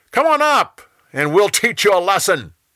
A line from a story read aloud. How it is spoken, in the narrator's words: They yelled down to Jonathan